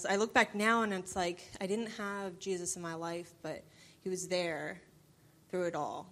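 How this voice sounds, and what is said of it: New Jersey accent. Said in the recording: “we're going to guess where you're from originally because of your accent ... So I'm from New Jersey.”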